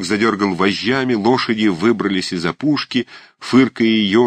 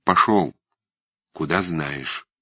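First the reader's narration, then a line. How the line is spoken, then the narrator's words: Quiet. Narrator (Russian): тихо сказал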